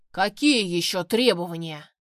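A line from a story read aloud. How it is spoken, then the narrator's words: Growling. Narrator (Russian): прорычал он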